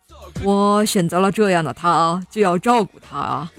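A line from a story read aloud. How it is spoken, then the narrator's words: Smiling. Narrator (Chinese): 他笑笑说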